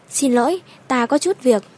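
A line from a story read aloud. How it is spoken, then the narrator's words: Apologetic, smiling. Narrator (Vietnamese): Thẩm Tú Nhi mỉm cười áy náy, đứng bật dậy nói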